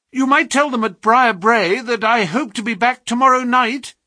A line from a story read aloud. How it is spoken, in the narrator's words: cried Phelps